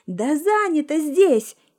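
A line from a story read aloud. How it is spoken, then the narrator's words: Nervous outburst. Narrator (Russian): нервно выкрикнула она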